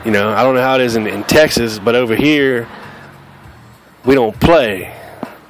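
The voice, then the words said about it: Southern US accent. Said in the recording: “This is how we talk in the South ... This is how I sound. This is where I grew up. This is my accent”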